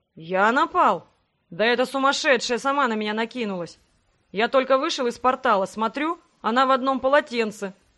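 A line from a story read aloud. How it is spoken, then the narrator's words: Indignant growl. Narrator (Russian): возмущенно рыкнул император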